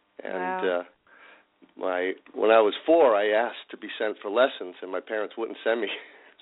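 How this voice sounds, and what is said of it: Slight East Coast accent. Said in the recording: “I detect a little bit of an East Coast accent there.”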